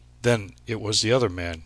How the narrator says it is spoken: exclaimed Bryce

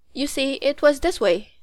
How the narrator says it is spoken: said Betsy

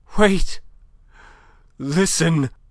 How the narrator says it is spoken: Madame was panting

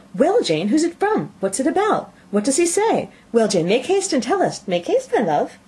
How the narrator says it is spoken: Bennet's eyes sparkled with pleasure, and she was eagerly calling out

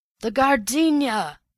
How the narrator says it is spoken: the millionaire had bawled

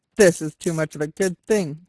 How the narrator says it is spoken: he yelled

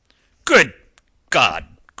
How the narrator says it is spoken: cried Lord Jeffreys, his voice suddenly swelling

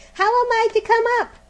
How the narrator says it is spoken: shouted Diamond

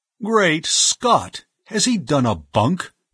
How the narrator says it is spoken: he cried

